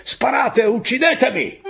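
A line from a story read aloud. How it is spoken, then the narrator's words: Shouting. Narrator (Italian): gridare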